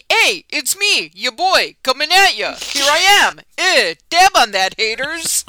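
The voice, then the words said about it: Imitated voice with New York accent. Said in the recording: “That was a pretty good Brenden impersonation... Bad, if he was born in New York City... That's a New York accent.”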